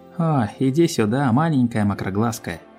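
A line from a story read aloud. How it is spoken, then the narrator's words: Sighing. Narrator (Russian): Рэнбоу Дэш вздохнула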